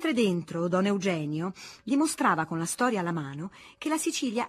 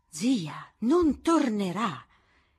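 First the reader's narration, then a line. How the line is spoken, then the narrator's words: Exclaimed. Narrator (Italian): esclamò alla fine Lucrezia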